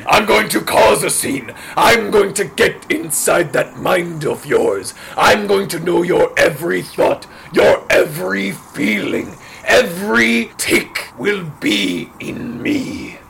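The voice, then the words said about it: Croaky, rough character voice. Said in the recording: “do you need a lozenge or a cough drop? Your voice sounds...”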